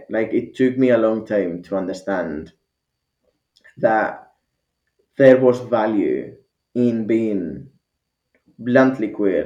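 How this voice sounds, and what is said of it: Mixed Spanish and Scottish accent. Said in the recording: “I've got this fucking mix between Spanish and Scottish that nobody understands”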